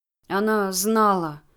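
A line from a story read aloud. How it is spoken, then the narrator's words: Muffled, dull voice. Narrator (Russian): глухо проговорил лучник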